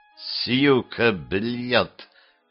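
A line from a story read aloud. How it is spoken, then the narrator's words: Through gritted teeth. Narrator (Russian): сквозь зубы сказал Джимми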